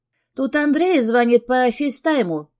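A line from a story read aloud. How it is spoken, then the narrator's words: Joyful. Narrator (Russian): радостно сообщила Ария, подбежав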